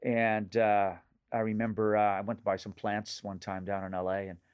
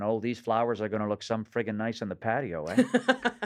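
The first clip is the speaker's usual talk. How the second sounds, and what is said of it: Nova Scotian regional accent. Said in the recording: “where's that accent from? ... I would lapse into the accent of my region of origin back in Nova Scotia”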